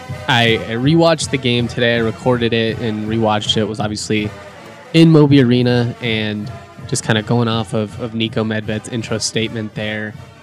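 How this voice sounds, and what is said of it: Fragile, strained voice. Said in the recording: “lost my voice ... my voice is still a little fragile”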